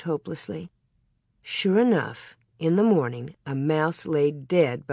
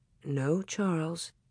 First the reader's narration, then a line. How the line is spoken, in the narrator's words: Ma murmured